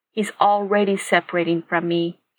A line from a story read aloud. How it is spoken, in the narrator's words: Katie said softly